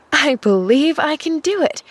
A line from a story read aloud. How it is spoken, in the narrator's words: she chuckled